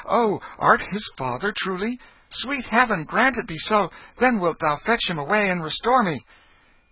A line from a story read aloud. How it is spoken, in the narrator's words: The prince eagerly said